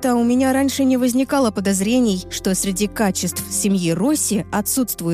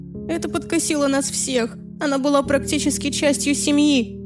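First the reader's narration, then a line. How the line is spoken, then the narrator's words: Sobbing. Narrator (Russian): всхлипнула подруга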